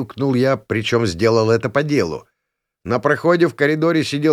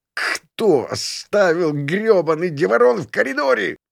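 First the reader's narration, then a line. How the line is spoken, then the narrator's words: Wheezing. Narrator (Russian): просипел я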